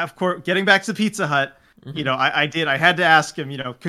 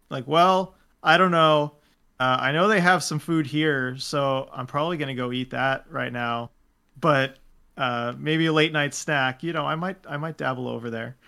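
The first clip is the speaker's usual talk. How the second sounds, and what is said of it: Dry, deadpan imitation of another person. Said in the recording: “do my best imitation of just kind of how he answers these questions, dry, dead”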